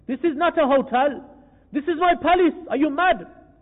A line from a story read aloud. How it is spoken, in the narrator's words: shouted Ibrahim bin Adham alayhi rahma